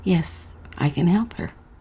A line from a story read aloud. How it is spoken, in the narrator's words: a man's voice answered quietly